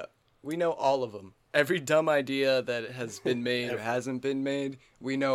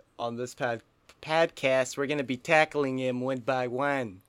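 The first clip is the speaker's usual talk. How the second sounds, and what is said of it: Put-on Boston accent. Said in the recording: “I don't know why I shifted into a Bostonian accent... No, I did Bostonian.”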